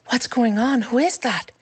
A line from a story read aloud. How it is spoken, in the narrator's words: Finley whispered